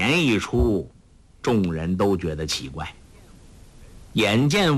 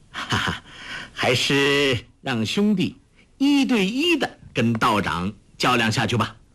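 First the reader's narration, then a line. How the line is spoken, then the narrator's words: Laughing. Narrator (Chinese): 朱聪笑道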